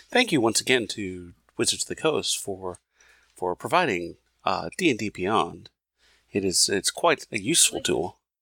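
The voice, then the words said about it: Mock public-radio announcer voice. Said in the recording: “I like your NPR voice.”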